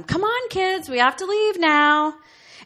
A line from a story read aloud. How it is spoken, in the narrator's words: She yelled out to them